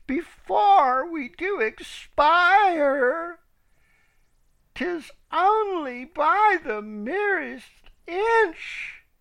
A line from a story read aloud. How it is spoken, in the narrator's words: these poor birds cried